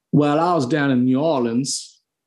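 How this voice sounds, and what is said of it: Attempted American Southern accent. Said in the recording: “Can you do an American accent? ... I can try a Southern one. ... It sounds kind of Australian.”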